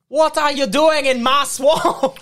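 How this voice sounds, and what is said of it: Scottish ogre character voice. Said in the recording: “go Scottish... Just do your best Shrek... I want Shrek”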